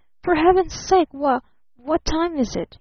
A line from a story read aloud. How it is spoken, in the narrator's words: faltered